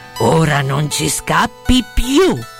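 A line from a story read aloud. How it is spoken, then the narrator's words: Harsh voices grumbling menacingly. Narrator (Italian): le solite 2 vociacce che gli brontolarono minacciosamente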